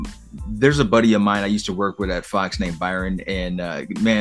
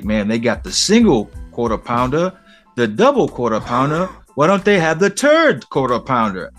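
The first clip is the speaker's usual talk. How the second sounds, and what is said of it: Heavy Caribbean island accent. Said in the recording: “he has a heavy accent, man. He's from the islands.”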